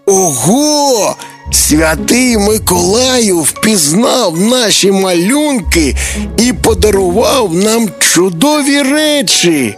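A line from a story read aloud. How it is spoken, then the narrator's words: Joyful speech. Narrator (Ukrainian): радісно сказав Тимко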